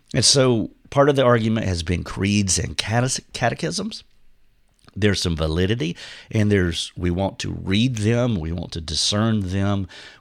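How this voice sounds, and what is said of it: Husky voice from a cold. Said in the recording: “I have a cold. My voice is shutting down ... the huskiness of my of my voice, but that's why it is sounding uh, different.”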